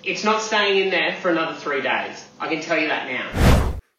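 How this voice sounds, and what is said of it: Stern dad voice. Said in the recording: “Got my real dad voice on it here, don't I?”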